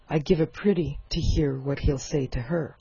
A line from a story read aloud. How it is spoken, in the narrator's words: she commented bitterly